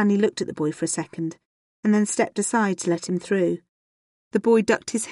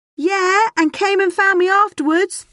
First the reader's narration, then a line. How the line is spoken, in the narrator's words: the boy said loudly